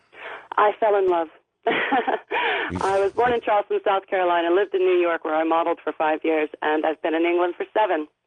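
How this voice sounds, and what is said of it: American accent. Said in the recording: “you sound like an American”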